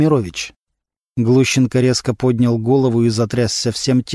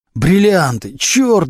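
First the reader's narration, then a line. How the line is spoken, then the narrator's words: Howling. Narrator (Russian): взвыл Глущенко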